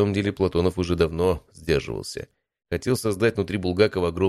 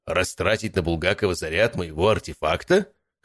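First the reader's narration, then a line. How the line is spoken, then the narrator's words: Scoffing snort. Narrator (Russian): хмыкнул Платонов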